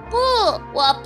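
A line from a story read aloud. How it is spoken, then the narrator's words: Loud, insistent. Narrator (Chinese): 叫叫还是大声地说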